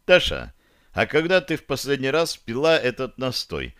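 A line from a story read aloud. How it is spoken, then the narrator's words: Asking knowingly. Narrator (Russian): спросил, уже догадываясь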